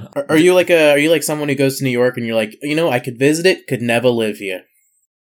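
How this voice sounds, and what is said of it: Put-on New York accent. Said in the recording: “I said that with a New York accent”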